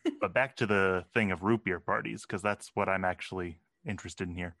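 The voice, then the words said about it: Clinical, formal podcast-style voice. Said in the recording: “has a podcast voice right now ... this doesn't sound like the ... I talked to in person ... Very sciencey, very clinical”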